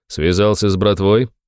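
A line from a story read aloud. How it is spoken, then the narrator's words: Very cold voice. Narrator (Russian): его голос звучал холодно, очень-очень холодно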